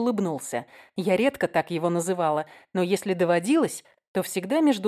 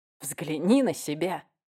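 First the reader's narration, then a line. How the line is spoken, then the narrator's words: Admiring whisper. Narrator (Russian): восхищенно прошептал Уэст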